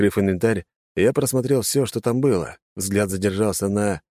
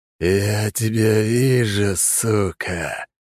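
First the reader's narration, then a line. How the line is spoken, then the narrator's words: Hissed. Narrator (Russian): прошипел апостол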